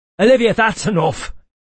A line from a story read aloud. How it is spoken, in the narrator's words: Cedric snapped